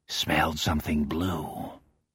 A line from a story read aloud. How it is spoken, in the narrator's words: He replies in a hoarse, conspiratorial whisper